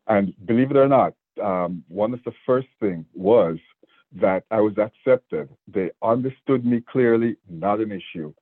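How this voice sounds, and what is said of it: Jamaican accent. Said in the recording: “I have an accent, and I was born in Jamaica ... my accent was a lot stronger”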